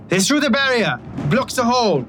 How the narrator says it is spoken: someone shout

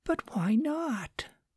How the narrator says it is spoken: asked Susan, half whispering, and with a little whine in her voice

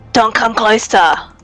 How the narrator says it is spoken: he'll yell out

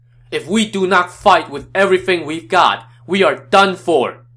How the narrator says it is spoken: Yuan Shao shouted

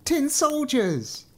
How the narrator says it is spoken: A small boy shouted it

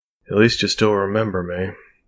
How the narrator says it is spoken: she mumbled

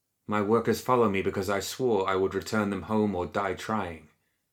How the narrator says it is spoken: Mei replied coldly

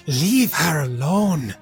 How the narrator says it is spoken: this creature here, who is going to snarl at you, Gideon, and say

